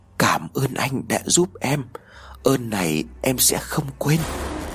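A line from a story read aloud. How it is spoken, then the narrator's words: Soft voice. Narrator (Vietnamese): tiếng nói khẽ khẽ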